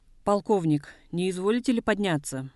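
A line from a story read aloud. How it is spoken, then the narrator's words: Loud. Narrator (Russian): громко сказал Жамбалов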